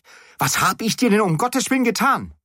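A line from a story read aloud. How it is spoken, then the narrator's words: Shouting. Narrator (German): schrie ich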